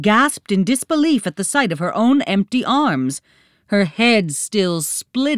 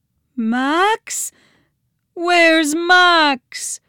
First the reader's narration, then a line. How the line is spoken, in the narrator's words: pleaded